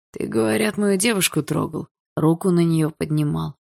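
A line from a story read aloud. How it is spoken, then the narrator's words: Hoarse furious question. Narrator (Russian): хрипло спросил Барс, чьи глаза затуманила ярость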